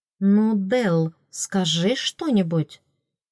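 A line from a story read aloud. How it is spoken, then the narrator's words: Quiet offhand remark. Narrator (Russian): Родерик де Лаэрт обронил негромко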